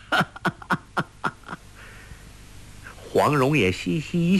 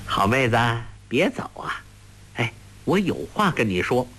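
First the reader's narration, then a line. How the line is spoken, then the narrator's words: Laughing. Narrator (Chinese): 笑道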